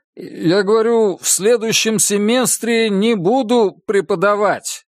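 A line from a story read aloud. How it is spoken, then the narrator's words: Loud repetition. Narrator (Russian): громко повторил Чип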